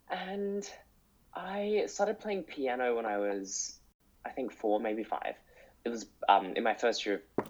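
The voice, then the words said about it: Congested voice from a cold. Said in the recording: “you can probably hear I've got a bit of a cold, um, but and allergies”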